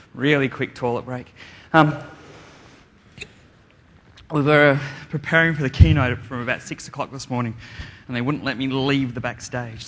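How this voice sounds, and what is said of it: Slightly out of breath speaker. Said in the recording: “I'm a bit out of breath”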